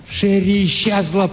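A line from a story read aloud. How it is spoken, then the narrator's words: Shouted. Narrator (Russian): прокричал он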